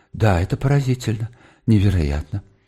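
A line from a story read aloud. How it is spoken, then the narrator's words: Muttering. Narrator (Russian): бормоча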